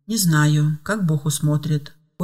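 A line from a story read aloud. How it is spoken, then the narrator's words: Calm answer. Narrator (Russian): спокойно ответила Ева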